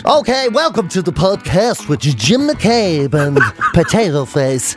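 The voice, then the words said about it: Put-on radio presenter voice. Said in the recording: “Was that meant to be an impression of me? ... that's my radio voice”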